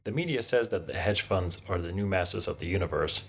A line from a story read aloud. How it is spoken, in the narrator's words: he chuckled